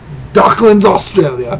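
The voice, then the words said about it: Poor put-on Australian accent. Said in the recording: “That's my Australia. How horrible was that accent? ... That's pretty bad.”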